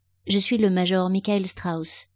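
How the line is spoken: Plain. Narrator (French): dit l'homme

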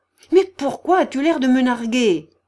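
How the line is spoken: Furious yelling. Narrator (French): vociféra-t-elle furieuse

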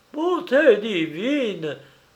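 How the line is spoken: Exclaimed. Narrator (French): s'écria-t-il

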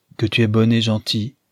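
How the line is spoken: Plain. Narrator (French): lui dit celle-ci

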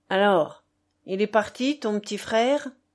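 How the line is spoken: Exclaimed. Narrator (French): s'exclama-t-il

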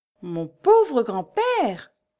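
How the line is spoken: Exclaiming. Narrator (French): s'écria Laurie

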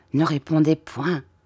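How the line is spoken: Very quiet. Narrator (French): dit-il tout bas

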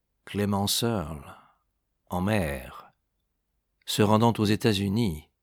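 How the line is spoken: Murmur. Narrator (French): murmura-t-il

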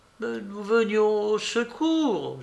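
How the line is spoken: Groaning voices. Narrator (French): gémirent-ils

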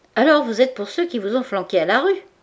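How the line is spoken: Plain. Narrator (French): demanda Goujon

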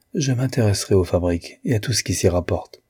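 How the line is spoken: Calm reply. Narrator (French): répondit d'un ton calme

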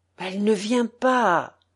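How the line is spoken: Murmuring. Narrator (French): murmura la voix de Volodia

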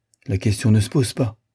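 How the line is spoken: Decisive young woman. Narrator (French): dit la jeune fille d'un ton décidé

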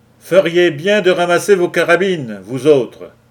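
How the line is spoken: Shouted. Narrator (French): cria Lou Larsen

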